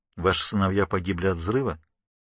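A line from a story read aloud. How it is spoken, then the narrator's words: Gentle question. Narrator (Russian): мягко спрашивает Ворд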